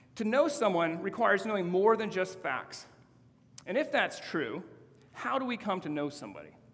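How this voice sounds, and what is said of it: Neutral West Coast American accent. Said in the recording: “my relatively neutral accent ... a white male from the West Coast”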